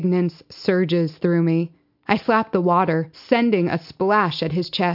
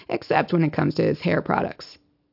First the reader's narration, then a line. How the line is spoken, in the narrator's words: Smith grumbles